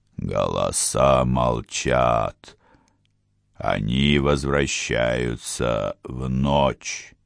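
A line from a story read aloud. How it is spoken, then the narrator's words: Growling. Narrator (Russian): прорычал Отран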